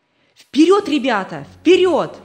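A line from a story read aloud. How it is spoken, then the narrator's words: Shouting while running. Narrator (Russian): крикнул он на бегу собакам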